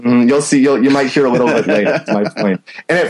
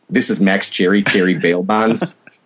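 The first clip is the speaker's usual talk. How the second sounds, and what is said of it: Impression of Max Cherry. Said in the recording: “before my cold, I had a pretty good Max Cherry from Jackie Brown”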